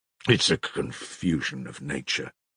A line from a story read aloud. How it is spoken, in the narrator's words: muttered vaguely but firmly, and obviously unwilling to say more